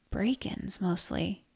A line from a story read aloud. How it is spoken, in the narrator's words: murmured